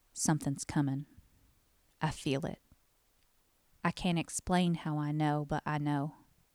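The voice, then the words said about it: Thick Southern US accent. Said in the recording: “forgive my thick southern accent.”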